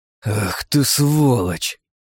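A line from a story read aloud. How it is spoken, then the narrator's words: Exhaled through clenched teeth. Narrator (Russian): Выдохнул я сквозь зубы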